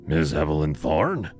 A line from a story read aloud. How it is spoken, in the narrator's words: His voice was a rough rasp, like sandpaper against bone